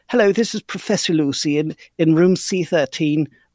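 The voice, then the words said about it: Poor imitation of British accent. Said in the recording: “Professor Lucy has a British accent, so I've been given permission from Abigail to read it as such ... here is my terrible interpretation of her voice”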